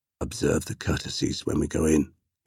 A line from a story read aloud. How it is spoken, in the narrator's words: Yesuge murmured